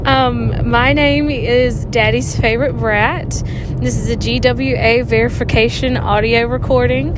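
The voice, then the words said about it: Strong Southern American accent. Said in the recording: “very southern accent”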